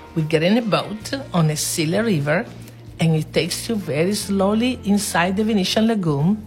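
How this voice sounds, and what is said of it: Speaks with a foreign accent. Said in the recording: “Sorry, is my accent.”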